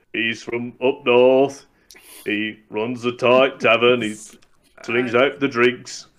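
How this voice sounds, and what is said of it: Put-on Northern English tavern-keeper accent. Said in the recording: “I do the Northern England tavern keeper a lot ... Sounds like one of the guys from Monty Python ... there's one of them from Yorkshire”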